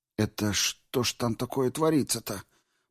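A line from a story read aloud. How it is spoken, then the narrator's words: Muttered under breath. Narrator (Russian): пробормотал себе под нос Генри Кемплада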